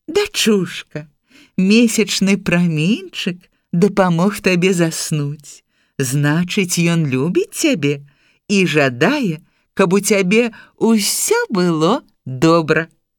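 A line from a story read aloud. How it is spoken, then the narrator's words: Smiling. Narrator (Belarusian): Тая усміхнулася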